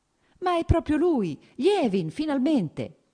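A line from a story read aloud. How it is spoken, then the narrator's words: Warmly teasing exclamation. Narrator (Italian): esclamò con un sorriso cordialmente canzonatorio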